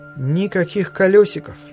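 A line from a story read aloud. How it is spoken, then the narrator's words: Calm. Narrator (Russian): спокойно сказала Тассо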